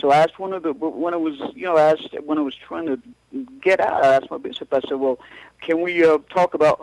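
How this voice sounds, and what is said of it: Scottish accent. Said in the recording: “is that a Scottish accent I sent? I discern?”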